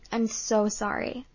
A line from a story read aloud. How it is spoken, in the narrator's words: I stammered